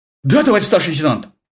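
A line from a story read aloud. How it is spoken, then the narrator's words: Confused babble. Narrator (Russian): пролепетал тот растерянно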